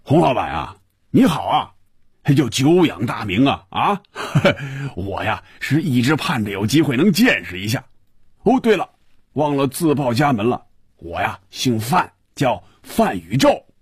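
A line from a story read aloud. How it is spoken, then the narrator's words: Laughing, muffled booming voice. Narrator (Chinese): 一串笑声，然后是有些瓮声瓮气的声音说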